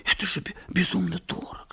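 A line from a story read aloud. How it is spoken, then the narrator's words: Whispered. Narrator (Russian): шептала Нина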